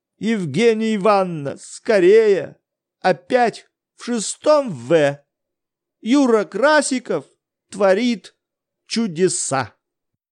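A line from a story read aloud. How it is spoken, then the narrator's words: Loud frightened exclamation. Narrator (Russian): чей-то испуганный голос громко возгласил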